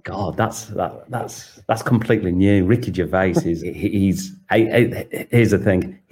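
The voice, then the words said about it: Northern English accent. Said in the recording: “your British accent ... I'm from northern England”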